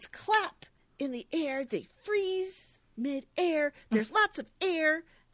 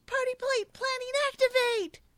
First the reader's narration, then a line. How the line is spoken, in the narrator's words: They all leap from the table, fists in the air, and yell